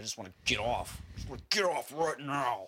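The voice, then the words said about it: Weird put-on voice. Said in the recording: “This is a weird voice you're doing.”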